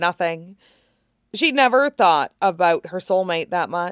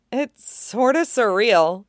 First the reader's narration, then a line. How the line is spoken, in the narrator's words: she chuckled